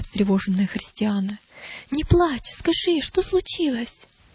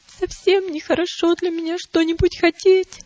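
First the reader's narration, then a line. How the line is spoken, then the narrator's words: Sobbing answer. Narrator (Russian): ответила Милость, всхлипывая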